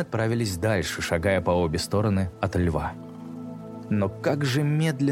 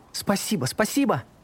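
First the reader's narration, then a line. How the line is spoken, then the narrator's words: Girls shouting. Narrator (Russian): закричали девочки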